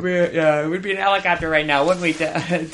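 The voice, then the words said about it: Imitates another person's voice. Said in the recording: “best Tom impersonation”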